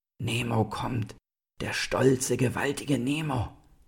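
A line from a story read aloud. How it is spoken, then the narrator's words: Animals murmuring. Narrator (German): kauerten die Tiere und murmelten bei seinem Anblick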